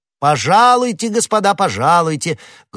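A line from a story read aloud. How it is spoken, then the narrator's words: Loud. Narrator (Russian): громко произнес Д'Артаньян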